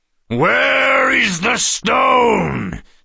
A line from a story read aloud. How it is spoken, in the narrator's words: Celebrant bellowed